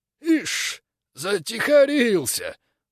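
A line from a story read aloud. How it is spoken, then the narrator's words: Rattling, quavering voice. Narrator (Russian): дребезжащим голосом констатировал Булан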